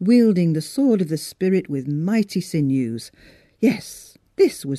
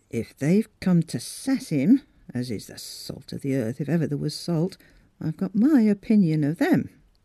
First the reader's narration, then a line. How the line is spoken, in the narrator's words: Miss Stiles muttered darkly